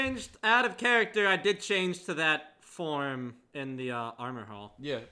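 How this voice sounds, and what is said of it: Usual voice. Nothing is said of it.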